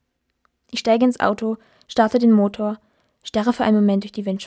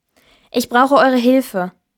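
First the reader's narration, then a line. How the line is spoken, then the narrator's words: Firm voice. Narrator (German): sage mit fester Stimme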